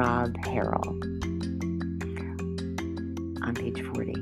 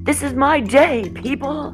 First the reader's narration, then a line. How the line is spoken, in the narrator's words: yelled it loud enough that other boats could hear